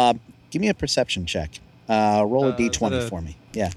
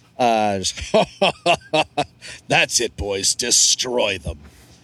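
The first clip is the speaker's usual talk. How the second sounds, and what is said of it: Deep villain character voice. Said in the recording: “laughing in his deep voice”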